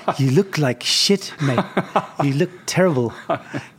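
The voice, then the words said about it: Put-on South African accent. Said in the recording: “in his South African accent”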